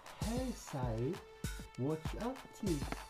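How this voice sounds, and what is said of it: Put-on British accent. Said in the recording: “She doesn't do a British accent ... I do a better accent than she does”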